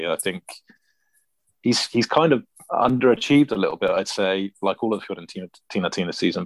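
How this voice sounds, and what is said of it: Italian Bari accent. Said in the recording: “a nice Bari accent”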